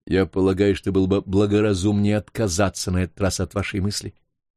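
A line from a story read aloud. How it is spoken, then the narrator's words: Plain. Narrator (Russian): сказал Норбер Мони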